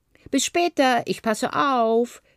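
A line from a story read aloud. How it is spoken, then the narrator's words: Called out. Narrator (German): rief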